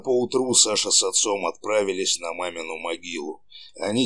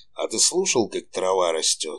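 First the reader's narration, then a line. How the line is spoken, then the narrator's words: Sighing question. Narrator (Russian): Саша вздохнул и спросил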